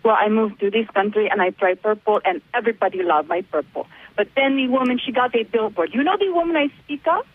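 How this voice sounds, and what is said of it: Argentinian accent. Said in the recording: “you have an accent... Argentina.”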